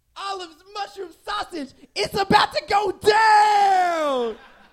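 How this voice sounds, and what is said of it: Screaming rap hype-man voice. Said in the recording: “my impersonation of the screamy guy at the beginning of a rap song”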